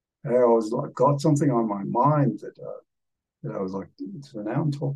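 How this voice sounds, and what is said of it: Usual voice. Nothing is said of it.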